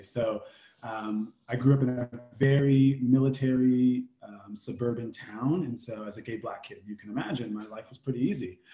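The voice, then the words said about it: American accent. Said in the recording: “my shitty accent, I'm from the indigenous lands of the Native Americans, also known as the US of A”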